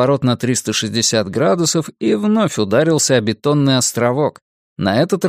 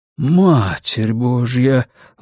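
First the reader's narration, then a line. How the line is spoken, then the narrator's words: Breathless exhale. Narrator (Russian): выдохнул Томми Уэнамейкер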